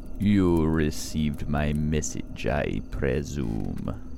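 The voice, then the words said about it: Low, rough voice with strange accent. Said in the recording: “His voice is low and rough, his accent strange to me.”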